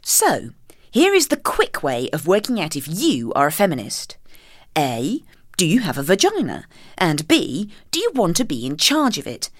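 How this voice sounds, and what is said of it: Posh reading voice. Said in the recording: “I'll do it in my posh reading voice”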